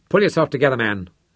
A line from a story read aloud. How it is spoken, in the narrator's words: Cartwright snapped at him, his own fear making him brusque